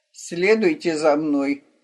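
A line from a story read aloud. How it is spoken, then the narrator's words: Grumbled. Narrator (Russian): пробурчал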